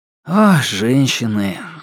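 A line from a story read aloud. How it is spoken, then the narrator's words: Sighing. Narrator (Russian): вздохнул я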